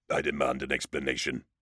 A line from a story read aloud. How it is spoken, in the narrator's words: Succo growled, his voice reverberating from a mechanical larynx